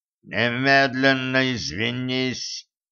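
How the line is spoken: Growling. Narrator (Russian): прорычал он

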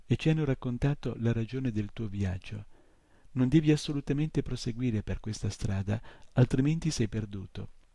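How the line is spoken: Wounded man moaning. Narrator (Italian): gemette quello con il petto bucato

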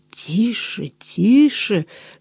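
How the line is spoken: Commander's hissing whisper. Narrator (Russian): свистящим шепотом требовал командир

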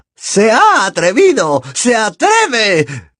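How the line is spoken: Incoherent shriek. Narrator (Spanish): chilló Bellatrix con incoherencia

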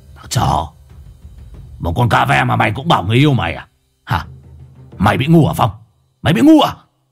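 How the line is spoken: Harsh angry growl. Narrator (Vietnamese): Lão Hùng gằn giọng

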